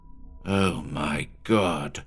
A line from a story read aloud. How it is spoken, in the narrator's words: Williams muttered, with a kind of despairing reverence